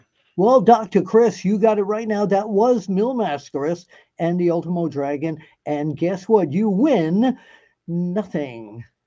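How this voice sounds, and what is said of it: Game show host voice, like Casey Kasem. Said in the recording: “my game show voice ... You kind of sound like Casey Kasem. ... He was more mellow than me, though.”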